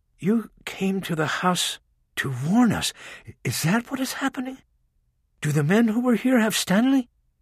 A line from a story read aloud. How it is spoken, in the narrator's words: Rachel leaned in close and spoke in a calming voice